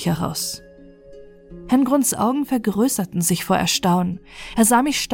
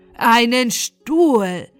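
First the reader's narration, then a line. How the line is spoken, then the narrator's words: Comic horrified cry. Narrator (German): rief Herr Grund im komischen Entsetzen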